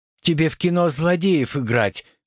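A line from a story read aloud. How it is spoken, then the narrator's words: Sighing girl. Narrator (Russian): вздохнула девушка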